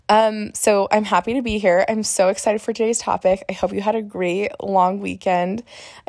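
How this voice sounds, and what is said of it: Hoarse, recovering voice. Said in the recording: “I got laryngitis. I completely lost my voice. ... as you can hear, it's a little still on the mend”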